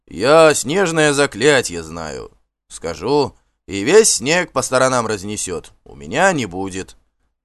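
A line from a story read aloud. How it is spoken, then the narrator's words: Answered calmly. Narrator (Russian): также спокойно ответил Ульф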